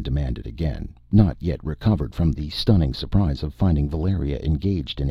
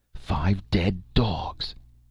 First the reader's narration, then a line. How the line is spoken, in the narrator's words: exclaimed Techotl, ghastly exultation